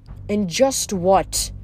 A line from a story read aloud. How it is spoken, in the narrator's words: he asked Nico